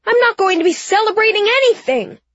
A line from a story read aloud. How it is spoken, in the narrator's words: Mommy yelled